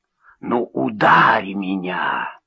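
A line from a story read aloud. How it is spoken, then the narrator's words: Hissing in the face. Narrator (Russian): прошипел он мне в лицо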